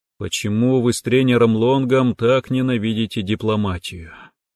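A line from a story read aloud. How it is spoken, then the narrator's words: Weary sigh. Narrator (Russian): Устало вздохнул я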